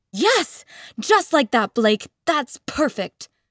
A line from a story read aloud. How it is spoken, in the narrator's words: she shouted